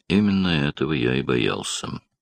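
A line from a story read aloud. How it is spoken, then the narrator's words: Remarked grimly. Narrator (Russian): мрачно заметил Даллас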